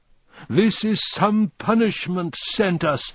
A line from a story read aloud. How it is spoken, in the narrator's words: I hear them bawling from the hill